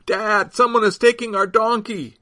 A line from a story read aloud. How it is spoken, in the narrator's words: shouted